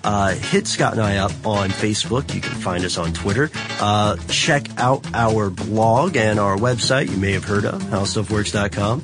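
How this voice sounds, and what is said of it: Smooth announcer radio voice. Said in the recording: “Got my radio voice on. ... Very smooth. ... my annoying radio voice”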